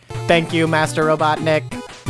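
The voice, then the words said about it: Hollow robot voice. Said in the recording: “read the robot voices ... They spoke with hollow voices ... I was doing a very full voice.”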